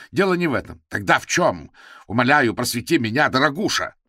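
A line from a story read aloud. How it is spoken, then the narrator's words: Venomous. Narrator (Russian): ядовито сказал Гордон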